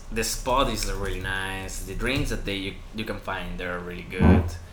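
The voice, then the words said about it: Sexy accent. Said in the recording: “my sexy accent”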